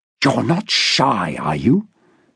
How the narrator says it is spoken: Harry hissed, using a tone of voice that he'd never before employed with this man

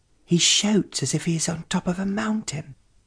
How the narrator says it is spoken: whispered Moira to her brother

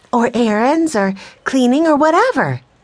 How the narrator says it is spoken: said Jesse excitedly

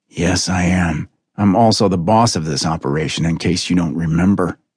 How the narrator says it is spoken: Scott said thickly

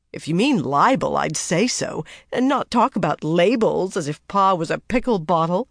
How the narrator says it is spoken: advised Joe, laughing

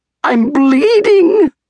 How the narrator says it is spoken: the fox yelped when he came to

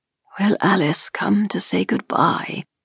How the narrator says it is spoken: He spoke but once, murmuring faintly

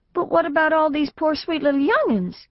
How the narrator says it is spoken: cried Mrs

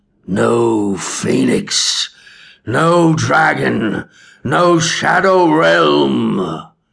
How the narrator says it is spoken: Asbor's voice boomed over the dying man's screams

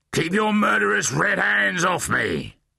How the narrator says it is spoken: the cloddertrog roared

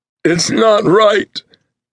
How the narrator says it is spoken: the crying man shouted, in a voice that was phlegmy with snot and tears

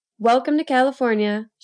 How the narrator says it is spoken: said

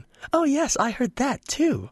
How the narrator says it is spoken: she confessed cheerfully

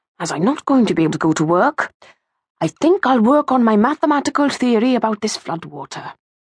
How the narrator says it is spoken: murmured

